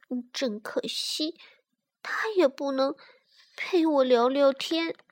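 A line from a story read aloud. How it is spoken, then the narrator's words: Unhappy sighing child. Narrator (Chinese): 小艾丽不高兴的叹着气说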